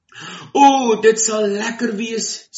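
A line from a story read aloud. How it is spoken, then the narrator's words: Excited. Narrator (Afrikaans): sê Jannie opgewonde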